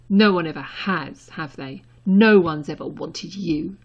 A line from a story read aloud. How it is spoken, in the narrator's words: spat